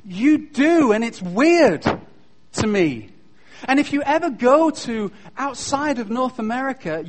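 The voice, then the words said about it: Non-North American accent, Pierce Brosnan-like. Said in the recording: “I really like your accent ... Somebody told me that I sounded like Pierce Brosnan.”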